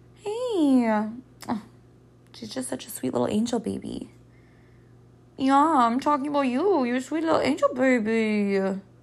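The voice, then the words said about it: Cutesy voice for talking to dog. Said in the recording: “in my dog voice”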